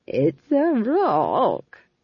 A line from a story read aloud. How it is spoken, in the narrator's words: chuckled Nanny Og